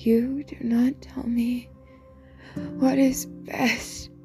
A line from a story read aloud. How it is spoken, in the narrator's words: she rasped